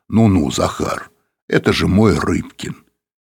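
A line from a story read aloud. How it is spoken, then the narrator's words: Booming bass. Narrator (Russian): Апанасенко сказал гулким басом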